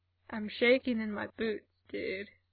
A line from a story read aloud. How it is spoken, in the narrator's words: Mikey called back, and his voice sounded really weird through the door